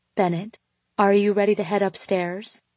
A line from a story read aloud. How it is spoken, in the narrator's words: I asked quietly